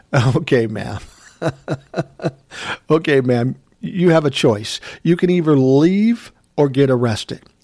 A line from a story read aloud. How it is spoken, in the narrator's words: My nephew starts laughing and says